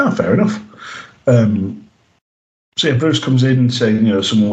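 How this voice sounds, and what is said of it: Usual voice. Nothing is said of it.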